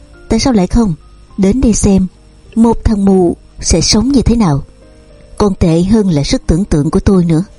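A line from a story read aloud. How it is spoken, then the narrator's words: Loud laugh. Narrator (Vietnamese): Hoài Nam cười to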